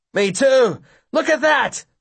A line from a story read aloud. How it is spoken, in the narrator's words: another bellows